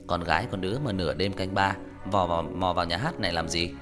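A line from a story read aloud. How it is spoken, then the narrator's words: Sneering, mocking. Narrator (Vietnamese): Hắn cười nhạt rồi châm chọc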